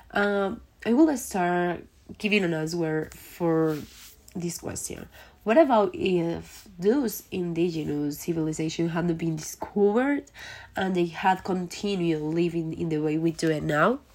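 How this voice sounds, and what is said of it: Voice affected by a cold. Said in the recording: “sorry for my voice, but I have a little cold”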